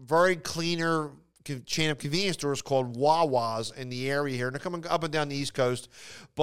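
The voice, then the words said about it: Philadelphia accent. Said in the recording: “you can hear an accent. I have a Philadelphia accent.”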